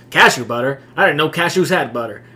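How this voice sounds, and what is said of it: Imitates another person's voice. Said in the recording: “that's an awesome Kevin Hart impersonation”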